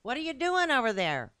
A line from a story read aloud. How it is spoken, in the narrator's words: Robbie called out